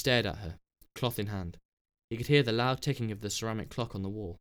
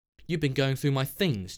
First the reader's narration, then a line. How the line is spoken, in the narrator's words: Jessie said